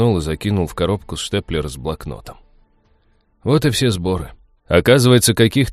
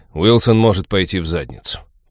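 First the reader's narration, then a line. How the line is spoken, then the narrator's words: Growled. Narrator (Russian): прорычал я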